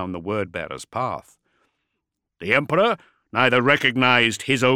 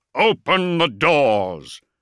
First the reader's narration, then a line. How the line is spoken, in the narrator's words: Corlin boomed